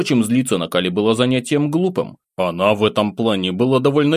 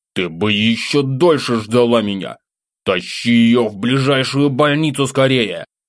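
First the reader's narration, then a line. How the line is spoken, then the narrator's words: Angry growl. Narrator (Russian): зарычал, разозленный бездействием демоницы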